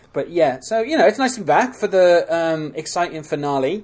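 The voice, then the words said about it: British accent. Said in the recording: “your wonderful British accent”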